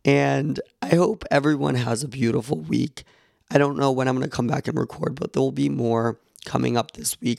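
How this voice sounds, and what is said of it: Voice sounds bad, worn. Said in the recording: “My voice is awful right now.”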